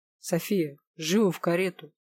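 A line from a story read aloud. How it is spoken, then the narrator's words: Stern, insinuating demand. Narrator (Russian): строго и вкрадчиво потребовал Дорин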